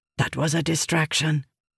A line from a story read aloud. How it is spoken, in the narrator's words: Cord whispered to Rissin